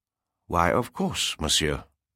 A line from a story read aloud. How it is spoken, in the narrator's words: Claude replied calmly